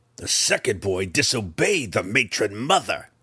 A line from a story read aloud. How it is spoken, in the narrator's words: Breeza snarled, a rehearsed interruption